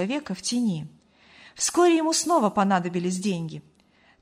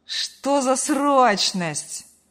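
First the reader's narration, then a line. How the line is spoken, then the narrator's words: Lazy reply. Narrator (Russian): лениво откликнулся сын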